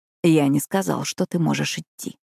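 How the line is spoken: Soft whisper. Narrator (Russian): тихо прошептал

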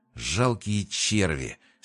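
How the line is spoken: Hissed with hatred. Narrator (Russian): с ненавистью прошипел Крион

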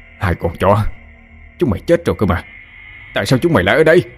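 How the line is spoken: Yelling nonstop. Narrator (Vietnamese): Cá mồm miệng không ngừng la hét

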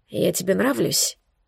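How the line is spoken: Hoarse question. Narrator (Russian): спросил хрипло

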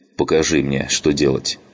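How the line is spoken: Plain. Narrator (Russian): сказал он

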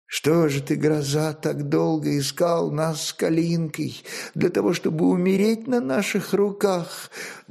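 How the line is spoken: Trembling voice. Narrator (Russian): Дрожащим голосом молвила Звенислава Гульсария

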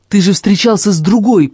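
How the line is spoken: Almost shouting. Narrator (Russian): почти выкрикнул я

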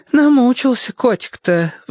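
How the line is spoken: Sighing older woman. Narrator (Russian): вздохнула тетушка

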